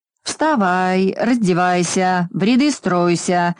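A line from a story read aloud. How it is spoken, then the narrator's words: Deafening nasty nasal roar. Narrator (Russian): оглушительно ревел чей-то противный гнусавый голос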